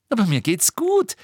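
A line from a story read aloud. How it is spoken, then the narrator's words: Giggling. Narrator (German): sagte Lilly immer noch kichernd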